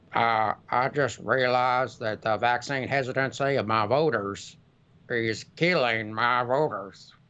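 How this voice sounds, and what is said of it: Impression of Mitch McConnell. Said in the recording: “You can do an impression. Mitch ... I did an impression. ... It's really good.”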